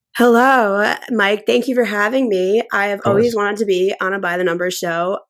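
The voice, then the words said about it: Hoarse, nearly lost voice. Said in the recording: “my voice is pretty much gone... I don't usually sound like that, although I sound a little better right now.”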